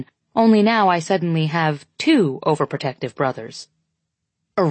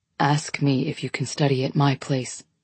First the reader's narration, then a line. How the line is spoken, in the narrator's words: he whispers